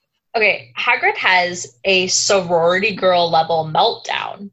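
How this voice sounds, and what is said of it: Usual voice. Nothing is said of it.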